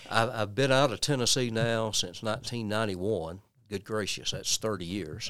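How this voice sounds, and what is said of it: Strong Tennessee Southern accent. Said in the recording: “there are some people in this life that will never, ever lose their accent. ... I think it has toned down some”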